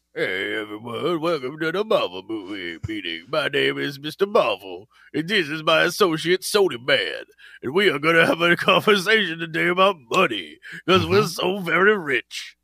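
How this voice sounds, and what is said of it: Put-on rich boardroom executive voice. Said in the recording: “I like that boardroom executive accent. ... That's what all rich people sound like on the billionaire level. ... what is that, the Atlantic accent”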